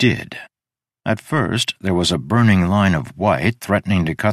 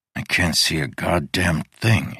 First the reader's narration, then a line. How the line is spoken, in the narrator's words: he muttered